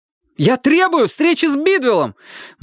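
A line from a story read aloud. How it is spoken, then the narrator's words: Almost shouting. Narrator (Russian): Мэтью почти кричал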